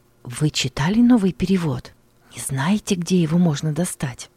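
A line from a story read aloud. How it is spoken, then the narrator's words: Crowd whispering. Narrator (Russian): в толпе перешептывались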